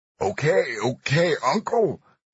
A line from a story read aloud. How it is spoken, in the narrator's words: Little cried out, his voice distorted by the foot against his face